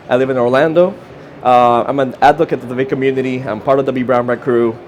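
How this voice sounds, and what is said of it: Costa Rican accent. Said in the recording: “I'm a Costa Rican. That's the accent you're hearing.”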